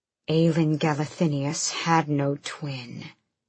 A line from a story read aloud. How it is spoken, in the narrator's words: he growled